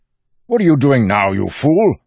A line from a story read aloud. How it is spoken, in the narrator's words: Innate, sputtering, snapped